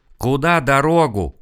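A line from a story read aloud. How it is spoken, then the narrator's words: Yelling. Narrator (Russian): заорал Серега, наклонившись над ним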